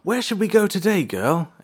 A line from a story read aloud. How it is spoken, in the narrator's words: April asked excitedly